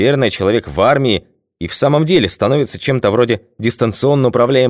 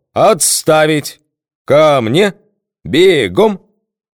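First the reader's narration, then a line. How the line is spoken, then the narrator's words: Thunderous commanding bark. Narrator (Russian): Анатолич громовым командным голосом рявкнул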